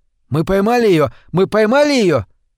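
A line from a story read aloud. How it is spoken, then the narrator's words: Excited shout. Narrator (Russian): Мальчик восторженно закричал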